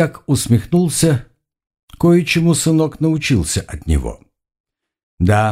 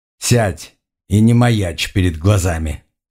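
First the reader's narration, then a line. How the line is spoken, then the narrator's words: Stern irritated command. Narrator (Russian): Строгим голосом, с нотками раздражения, распорядился Оригон Севиньрон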